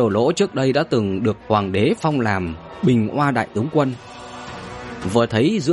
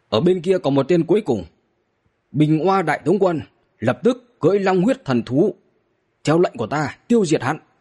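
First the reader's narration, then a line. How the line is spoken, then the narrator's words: Shouted. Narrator (Vietnamese): hét với cả ba đồ lỗ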